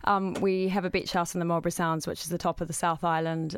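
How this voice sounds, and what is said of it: New Zealand accent. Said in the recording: “I'm originally from New Zealand, as the accent suggests.”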